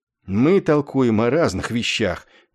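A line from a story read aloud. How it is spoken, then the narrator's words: Weary, exasperated. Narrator (Russian): устало сказал Есариан, как бы вконец измученный тупостью Клевенджера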